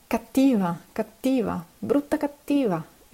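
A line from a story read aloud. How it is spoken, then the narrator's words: Insulting exclamation. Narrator (Italian): esclamò, sapendo così di insultare la balia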